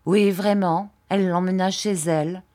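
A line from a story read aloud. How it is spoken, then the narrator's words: Plain. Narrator (French): dit M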